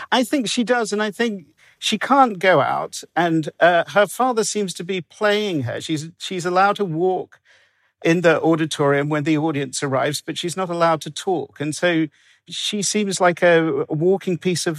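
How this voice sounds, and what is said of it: English accent. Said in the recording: “Now I'm from England, as you can tell ... having an English accent”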